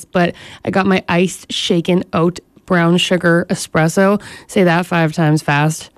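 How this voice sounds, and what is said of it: Groggy, sleepy voice. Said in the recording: “the struggle is real today. I had such a hard time waking up. You can probably hear it in my voice”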